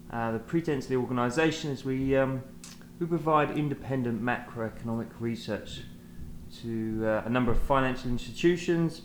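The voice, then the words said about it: British London accent. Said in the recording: “London is home for us, as you can tell by the accent.”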